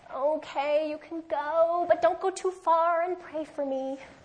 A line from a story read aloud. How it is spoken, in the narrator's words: Pharaoh whining his concession